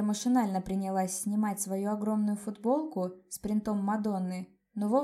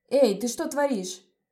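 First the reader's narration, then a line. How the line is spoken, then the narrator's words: Shouting. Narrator (Russian): закричал Леон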